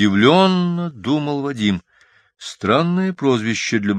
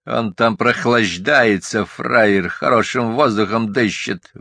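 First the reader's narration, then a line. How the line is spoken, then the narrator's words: Hoarse grumbling. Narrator (Russian): ворчал сиплый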